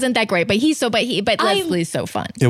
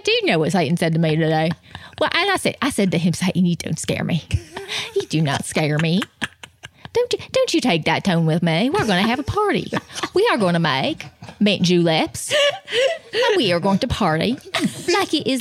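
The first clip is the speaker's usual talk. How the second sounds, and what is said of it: Imitates another person's voice. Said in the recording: “That sounds like him. ... That is so Leslie. ... That was a really good impression.”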